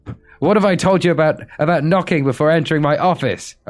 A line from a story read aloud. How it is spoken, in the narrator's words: Obama screamed hysterically